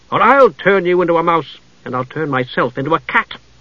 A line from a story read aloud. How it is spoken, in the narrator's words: Jenna snapped